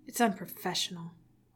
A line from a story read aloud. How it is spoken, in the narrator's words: Arthur muttered